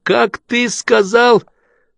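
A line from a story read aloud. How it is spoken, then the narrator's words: Shouted. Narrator (Russian): Кто-то крикнул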